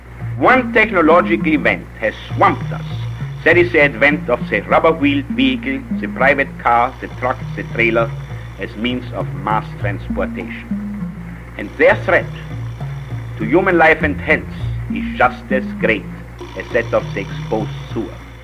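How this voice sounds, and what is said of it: Heavily accented speech on hissy tape. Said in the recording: “It's hard to understand him with the tape hiss and the accent”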